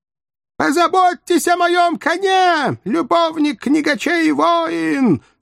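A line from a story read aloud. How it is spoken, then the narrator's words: Sobbing shout through cupped hands. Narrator (Russian): сложив ладони рупором, кричала рыдающая принцесса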